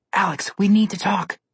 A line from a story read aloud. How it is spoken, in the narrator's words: Connor whispered